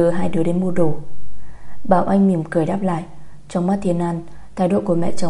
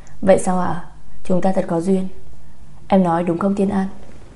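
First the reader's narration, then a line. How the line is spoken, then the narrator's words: Smiling. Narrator (Vietnamese): Nhật Linh mỉm cười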